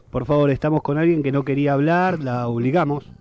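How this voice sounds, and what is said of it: Street reporter voice. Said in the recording (Spanish): “poner la voz así, como notero”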